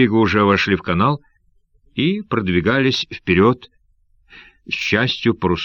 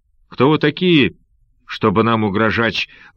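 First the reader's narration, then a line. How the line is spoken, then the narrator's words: Thunderous shout. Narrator (Russian): выкрикнул он громовым голосом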